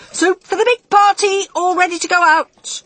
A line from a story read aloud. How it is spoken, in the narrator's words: shouted